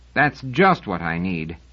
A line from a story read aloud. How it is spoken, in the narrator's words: snorted Seldon